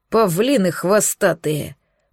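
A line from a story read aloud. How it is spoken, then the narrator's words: Grumbling. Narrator (Russian): проворчал Миха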